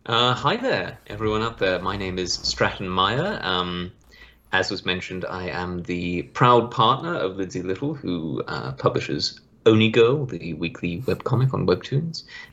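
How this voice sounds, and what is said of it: Mixed Australian and English accent. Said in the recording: “that luscious accent ... born in Australia ... My dad is English, so I sort of inherited a little bit of his mannerisms and way of speaking. So it's a bit of a hodgepodge.”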